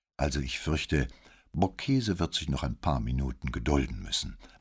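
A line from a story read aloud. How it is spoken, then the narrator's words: With a fake sigh. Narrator (German): meinte er mit einem gespielten Seufzer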